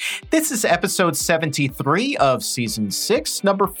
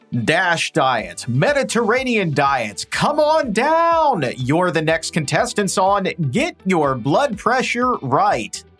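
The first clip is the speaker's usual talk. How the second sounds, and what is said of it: Game show announcer voice. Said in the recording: “I do my announcer voice.”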